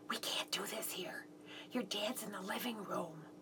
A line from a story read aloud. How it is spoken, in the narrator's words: I whispered